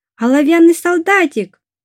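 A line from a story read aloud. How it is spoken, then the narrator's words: Shouted. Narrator (Russian): кто-то крикнул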